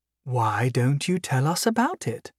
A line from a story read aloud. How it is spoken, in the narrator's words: Arabelle asked sweetly